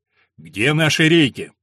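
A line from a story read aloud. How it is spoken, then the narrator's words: Deep bass voice. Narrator (Russian): пробасил он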